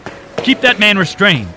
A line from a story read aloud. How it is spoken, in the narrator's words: A tall man shouting behind him